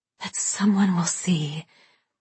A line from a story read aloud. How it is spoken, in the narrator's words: Babe whispered